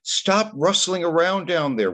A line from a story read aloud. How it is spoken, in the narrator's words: Mom would shout